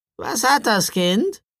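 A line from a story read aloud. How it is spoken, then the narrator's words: Croaking, raven-like woman's question. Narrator (German): fragte die ganz in Schwarz gekleidete Frau, und ihre Stimme krächzte wie die eines Raben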